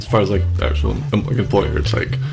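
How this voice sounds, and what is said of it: Mumbling, unclear speech. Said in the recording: “so I don't know if you're mumbling. ... Are you mumbling? ... I always mumble.”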